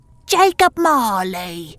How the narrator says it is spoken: the disfigured voice called out

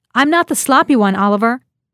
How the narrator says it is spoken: In the downpour, her voice sounded strange to her as she shouted into the phone

